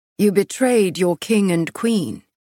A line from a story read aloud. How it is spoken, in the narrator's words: Castile said, his voice showing no emotion